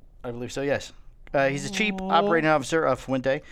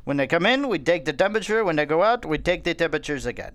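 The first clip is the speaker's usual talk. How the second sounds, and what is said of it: Put-on Central American accent. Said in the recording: “I don't know what accent that was ... Central America.”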